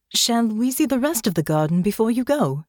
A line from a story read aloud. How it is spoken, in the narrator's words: Alix asked, as brightly and warmly as ever